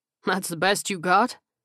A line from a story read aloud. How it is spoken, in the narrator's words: The captain laughed